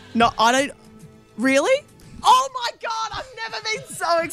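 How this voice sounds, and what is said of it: Excited yelling. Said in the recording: “Sorry for yelling.”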